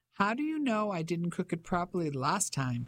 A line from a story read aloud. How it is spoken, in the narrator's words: She asked, laughing